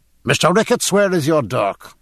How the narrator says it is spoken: said James Dillon sharply

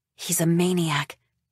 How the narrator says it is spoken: Tilda whispers

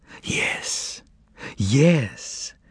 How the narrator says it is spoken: whispered Margarita

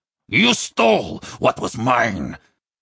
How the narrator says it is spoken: Fakolmage snarled

